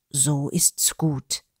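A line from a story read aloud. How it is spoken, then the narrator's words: Murmuring earthling. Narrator (German): murmelte der Erdling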